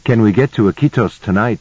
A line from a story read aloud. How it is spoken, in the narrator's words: asked